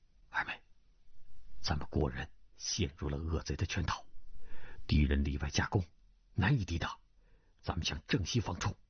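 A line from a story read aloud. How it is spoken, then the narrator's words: Low voice. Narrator (Chinese): 低声道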